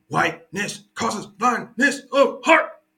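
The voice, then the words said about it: Imitates another person's voice. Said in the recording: “That's my Eric Mason impression.”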